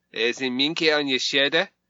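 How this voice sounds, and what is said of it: Peter Sellers Clouseau mock French accent. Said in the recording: “a bit of Inspector Clouseau ... doing an impression of Peter Sellers being racist to the French”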